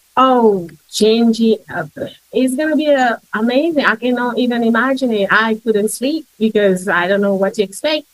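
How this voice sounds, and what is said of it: English accent. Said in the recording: “you've got an English accent ... you've got a really unique accent”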